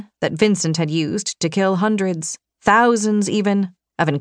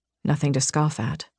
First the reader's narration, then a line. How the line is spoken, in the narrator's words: he said quietly